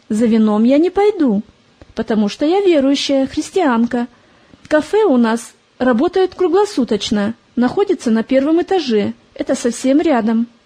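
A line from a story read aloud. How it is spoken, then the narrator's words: Calm answer. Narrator (Russian): Привыкшая к разным посетителям, Полина спокойно ответила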